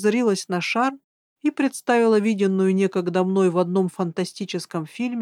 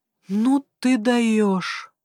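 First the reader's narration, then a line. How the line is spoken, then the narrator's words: Admiring exhale. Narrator (Russian): выдохнул с восхищением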